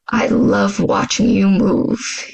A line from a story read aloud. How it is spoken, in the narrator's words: he growled in my ear